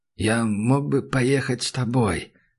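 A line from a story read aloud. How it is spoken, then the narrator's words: Whispered. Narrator (Russian): прошептал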